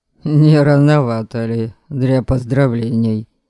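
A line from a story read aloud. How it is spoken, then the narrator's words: Relaxed snort. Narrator (Russian): фыркнул Норберг, немного расслабившись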